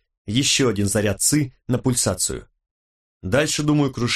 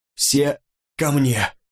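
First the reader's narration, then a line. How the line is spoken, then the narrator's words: Hoarse shout. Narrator (Russian): хрипло выкрикнул он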